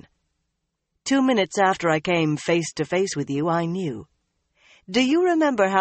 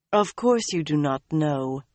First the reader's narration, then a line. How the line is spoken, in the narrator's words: Moiraine said soothingly